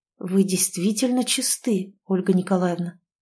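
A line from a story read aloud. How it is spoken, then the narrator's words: Quiet, guilt-laden question. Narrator (Russian): спросил он тихо, чувствуя себя до крайности мерзко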